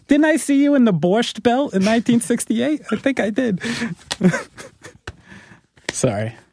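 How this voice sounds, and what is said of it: Old Jewish lady accent. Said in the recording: “That was an old Jewish lady accent.”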